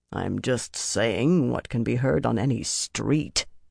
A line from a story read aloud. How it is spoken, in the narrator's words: he muttered